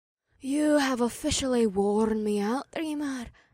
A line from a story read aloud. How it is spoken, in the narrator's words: May sighed in a wispy voice